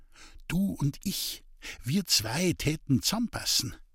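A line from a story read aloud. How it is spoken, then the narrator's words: Whispering in ear. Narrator (German): der Julei über den Gartenzaun ins Ohr wisperte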